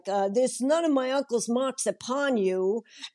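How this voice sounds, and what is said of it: Shakespeare line in a street accent. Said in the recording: “I'll do it with a street accent, you know, with a kind of”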